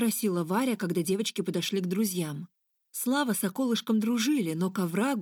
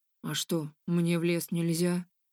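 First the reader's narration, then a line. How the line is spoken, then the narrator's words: Sullen grumble. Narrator (Russian): буркнул Слава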